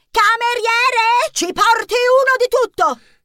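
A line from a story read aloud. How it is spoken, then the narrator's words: Shrill shriek. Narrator (Italian): strillò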